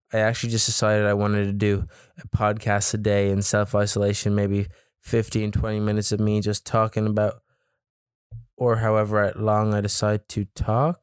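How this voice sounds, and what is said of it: Voice with a cold. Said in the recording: “I have a bit of a cold.”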